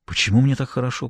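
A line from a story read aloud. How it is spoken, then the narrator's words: Whisper. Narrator (Russian): прошептал он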